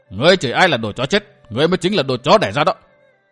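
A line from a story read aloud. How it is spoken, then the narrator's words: Loud angry bark. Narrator (Vietnamese): Cừu Thiên Trạng nạt lớn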